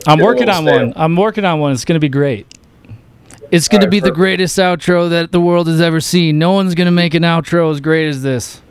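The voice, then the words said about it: Imitates another person's voice. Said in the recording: “That was my Trump impression. It wasn't good.”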